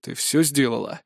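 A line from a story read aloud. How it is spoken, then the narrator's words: Rough question. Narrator (Russian): грубо спросил бывший слуга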